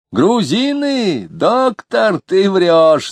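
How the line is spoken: Shouted. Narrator (Russian): закричал Лютов

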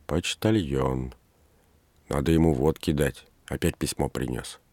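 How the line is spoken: Whispered. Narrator (Russian): она прошептала

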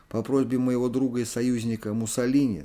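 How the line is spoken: Plain. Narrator (Russian): сказал Гитлер Гендерсону

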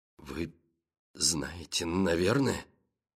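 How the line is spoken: Halting mutter. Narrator (Russian): Запинаясь, пробормотал Гребер

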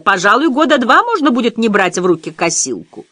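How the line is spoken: Laughing shout. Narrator (Russian): со смехом крикнула

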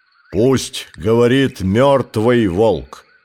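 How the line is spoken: Growling, elder wolves. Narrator (Russian): прорычали старшие волки

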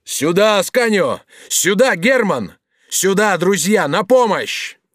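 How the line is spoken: Shouting for help. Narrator (Russian): Бенвенуто закричал своим художникам

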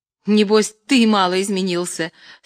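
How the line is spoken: Laughing reply. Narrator (Russian): смеясь отвечала Любская

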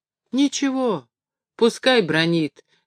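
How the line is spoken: Children's defiant tearful chorus. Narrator (Russian): дерзко сказали дети в один голос, всхлипывая и в то же время сквозь слезы с улыбкой

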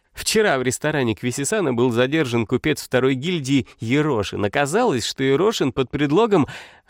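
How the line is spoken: Laughing, reading aloud. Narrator (Russian): рассмеялась и прочла вслух

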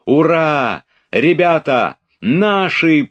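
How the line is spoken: Shout. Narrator (Russian): прокричал Петя

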